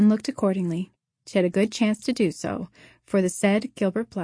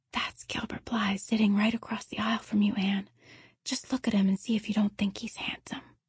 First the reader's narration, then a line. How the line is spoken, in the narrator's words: Diana whispered to Anne